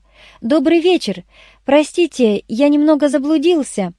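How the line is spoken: Friendly shout. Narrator (Russian): стараясь не испугать ее, приветливо крикнул

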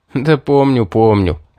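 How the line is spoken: Laughing. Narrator (Russian): рассмеялся я

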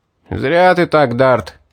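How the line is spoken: Group shouting. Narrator (Russian): выкрикнули они

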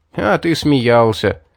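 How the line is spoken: Chuckling. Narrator (Russian): хохотнув, Грин

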